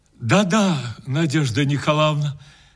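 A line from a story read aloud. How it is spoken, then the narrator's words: Sad. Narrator (Russian): печально сказал он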